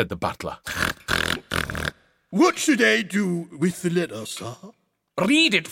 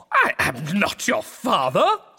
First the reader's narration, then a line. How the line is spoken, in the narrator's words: spluttered the lord